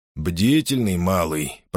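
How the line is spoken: Grumbling. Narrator (Russian): проворчал Пелита

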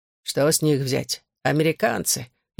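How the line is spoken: Sarcastic remark. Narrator (Russian): язвительно бросил кто-то

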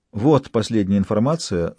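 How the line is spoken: Plain. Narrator (Russian): сказала Мадлен Туссен

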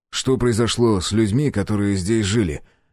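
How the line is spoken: Abrupt. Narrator (Russian): резко сменил тему

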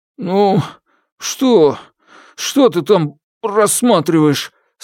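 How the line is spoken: Strained choked question. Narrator (Russian): спросил сдавленным голосом Добао

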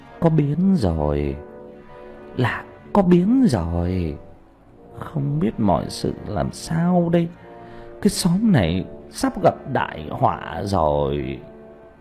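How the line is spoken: Sighing worried muttering. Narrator (Vietnamese): Ông thở dài, mồm cứ lẩm bẩm

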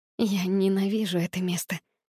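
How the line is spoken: Whisper. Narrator (Russian): прошептала я

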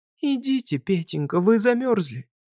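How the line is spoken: Tender. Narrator (Russian): она говорила ласково

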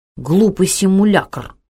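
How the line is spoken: Angry. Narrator (Russian): сердито сказал он

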